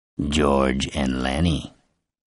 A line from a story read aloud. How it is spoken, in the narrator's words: Sarge sneered